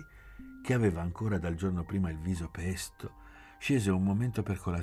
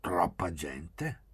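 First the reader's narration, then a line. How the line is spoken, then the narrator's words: Muttered. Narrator (Italian): borbottò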